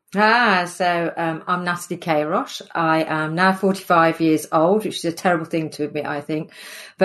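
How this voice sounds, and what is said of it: English Midlands accent. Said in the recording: “I'm from the Midlands, hence the accent. ... born and bred in Sutton Coldfield, which is just north of Birmingham”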